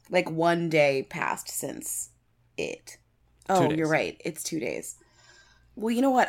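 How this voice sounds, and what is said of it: Tired, worn-out voice. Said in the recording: “I am just so exhausted ... I can barely function ... I'm so tired. You can hear it in my voice.”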